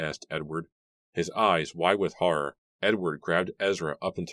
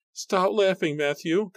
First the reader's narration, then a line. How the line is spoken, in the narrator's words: Constance screamed, running over to him